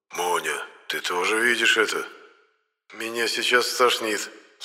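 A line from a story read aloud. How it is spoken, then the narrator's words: Faint, dying voice. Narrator (Russian): сказал Моня умирающим голосом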